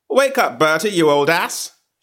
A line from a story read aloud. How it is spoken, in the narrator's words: she cried, in a voice that hit me between the eyebrows and went out at the back of my head